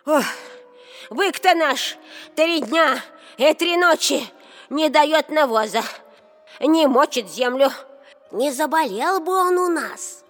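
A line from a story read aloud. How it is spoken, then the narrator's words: Shouted. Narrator (Russian): закричали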